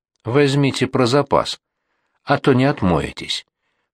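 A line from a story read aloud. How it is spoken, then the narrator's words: Calm. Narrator (Russian): проговорил Артюхин уже спокойно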